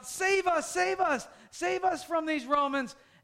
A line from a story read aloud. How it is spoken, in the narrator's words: So they're shouting out